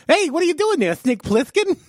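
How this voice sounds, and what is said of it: Imitates another person's voice. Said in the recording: “That's my impression of Mike Tyson as the villain in Escape from New York.”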